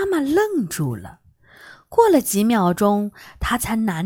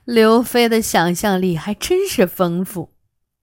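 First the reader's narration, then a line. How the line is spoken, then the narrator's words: Smiling. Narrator (Chinese): 妈妈笑着说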